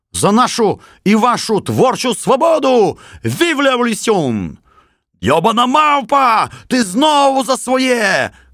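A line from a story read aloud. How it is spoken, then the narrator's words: Shouted. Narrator (Ukrainian): крикнув газдрубал Калачакрович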